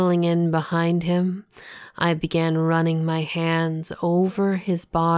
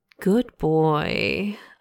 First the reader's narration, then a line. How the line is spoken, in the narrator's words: I murmured in his ear